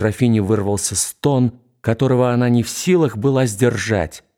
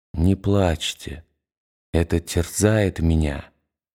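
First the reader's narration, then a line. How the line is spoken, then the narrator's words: Quiet monotone. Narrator (Russian): Все тем же тихим, монотонным голосом он сказал ей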